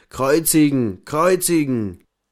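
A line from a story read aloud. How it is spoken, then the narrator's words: Crowd shouting. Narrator (German): die hohen Priester und ihre Leute … schrien sie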